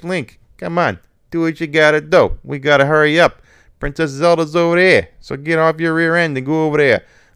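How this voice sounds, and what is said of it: Silly New York accent character voice. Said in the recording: “He had a New York accent. ... I'll do the silly voices”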